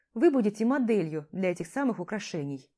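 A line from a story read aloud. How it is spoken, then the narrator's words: Calm young man. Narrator (Russian): спокойно отвечает парень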